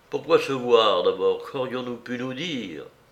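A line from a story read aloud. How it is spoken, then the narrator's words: Murmuring after pause. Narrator (French): murmura au bout d'un moment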